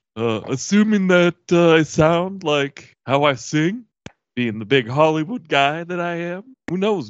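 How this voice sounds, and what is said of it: Put-on Hollywood action-star character voice. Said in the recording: “do I do the Johnny Cage voice? ... You do.”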